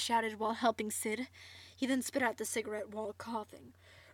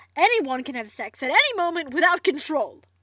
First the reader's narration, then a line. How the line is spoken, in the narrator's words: Barret shouted